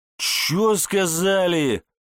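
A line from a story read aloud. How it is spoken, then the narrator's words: Growling. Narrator (Russian): Зёма буквально рычал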